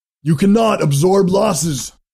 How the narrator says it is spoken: Mazer shouted at him

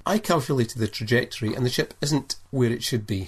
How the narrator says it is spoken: said Nikolai

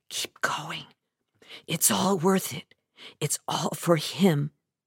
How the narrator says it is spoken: I'd whisper to myself

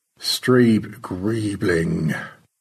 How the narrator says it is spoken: Stanley murmured

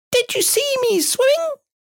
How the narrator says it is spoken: squeaked Roo excitedly

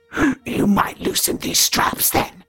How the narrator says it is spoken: Regan croaked

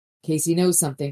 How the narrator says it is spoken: Butters said

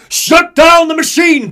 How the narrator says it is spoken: Comstock barks

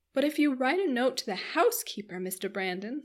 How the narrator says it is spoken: said Marianne eagerly

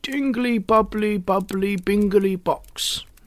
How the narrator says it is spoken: shouted Old Man Ramsay

